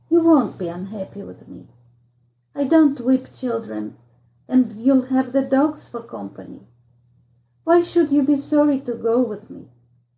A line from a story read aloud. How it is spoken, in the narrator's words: he said, kindly enough